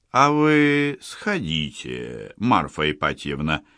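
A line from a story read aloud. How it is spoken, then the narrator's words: Gentle interjection. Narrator (Russian): мягко вмешался Горецкий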